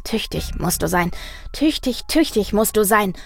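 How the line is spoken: Rhythmic murmur. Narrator (German): murmelte er und tippte dazu im Takt mit seinen Füßen auf den Boden

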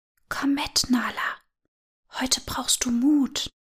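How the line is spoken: Wind whispering. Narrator (German): wie der Wind flüsterte

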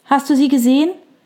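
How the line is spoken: Calling from the door. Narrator (German): rief Fiona McAllen von der blauen Tür aus

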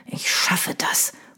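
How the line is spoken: Murmur. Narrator (German): murmelte er

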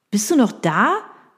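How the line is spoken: Calling into phone. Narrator (German): rief Daniel in den Hörer

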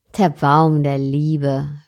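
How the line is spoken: Mocking, scornful. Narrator (German): höhnte der Fremde

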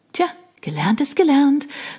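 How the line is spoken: Triumphant call. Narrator (German): rief ich triumphierend

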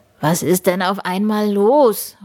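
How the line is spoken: Calling out. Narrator (German): ruft

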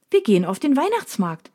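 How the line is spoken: Cheerful announcement. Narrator (German): verkündet sie fröhlich

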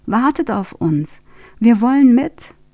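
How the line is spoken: Indignant call. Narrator (German): ruft Ben empört

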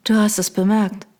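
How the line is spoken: Toneless. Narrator (German): sagte ich tonlos

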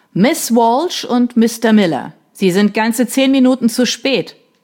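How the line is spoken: Thundering voice. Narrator (German): donnerte die Stimme von Mr

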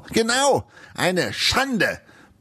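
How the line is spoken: Blustering, nearly choking. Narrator (German): polterte Eisenbeißer und verschluckte sich dabei fast an seinem Wein

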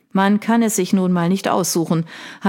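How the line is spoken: Dry reply. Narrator (German): hatte dieser nur trocken erwidert

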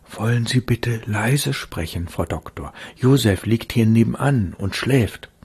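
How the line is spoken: Anxious whisper. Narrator (German): flüsterte sie ängstlich

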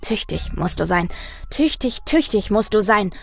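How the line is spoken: Murmured. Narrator (German): murmelte er

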